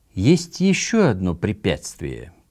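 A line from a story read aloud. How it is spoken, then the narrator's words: Slow, very solemn. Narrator (Russian): произнес медленно и чрезвычайно торжественно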